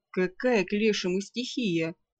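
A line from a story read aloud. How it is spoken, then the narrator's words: Snorted. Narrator (Russian): фыркнул Ролар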